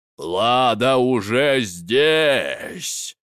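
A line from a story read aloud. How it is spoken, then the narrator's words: Dragon's growl. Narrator (Russian): прорычал дракон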